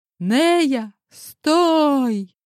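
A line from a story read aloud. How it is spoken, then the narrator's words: Shout. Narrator (Russian): выкрикнул успевший подбежать Ренат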